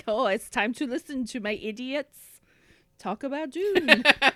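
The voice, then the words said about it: Put-on French Canadian accent. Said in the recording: “that's my French Canadian accent.”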